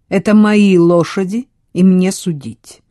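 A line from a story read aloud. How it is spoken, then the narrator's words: Cold reply. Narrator (Russian): холодно ответил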